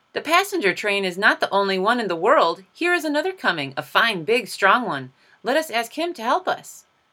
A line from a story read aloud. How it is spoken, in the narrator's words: the little clown called out